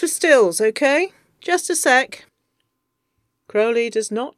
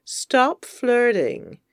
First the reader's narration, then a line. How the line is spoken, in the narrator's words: Anathema mutters